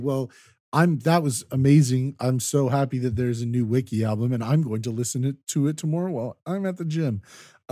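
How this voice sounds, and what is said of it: Joyful, excited voice. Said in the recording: “You guys heard the joy in my voice.”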